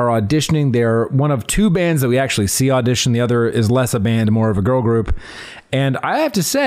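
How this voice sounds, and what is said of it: Usual voice. Nothing is said of it.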